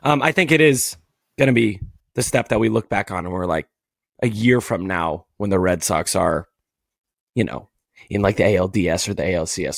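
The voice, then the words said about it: Strained, nearly lost voice. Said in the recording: “I'm dying over here. My voice is just like gonzo.”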